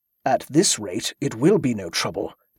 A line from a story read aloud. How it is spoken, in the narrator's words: the abbot muttered